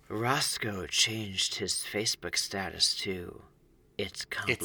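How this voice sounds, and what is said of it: Mock serious dramatic TV voice. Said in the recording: “serious voice they do it in the show ... as though this is like a creepy moment”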